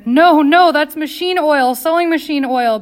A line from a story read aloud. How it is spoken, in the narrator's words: Bella screamed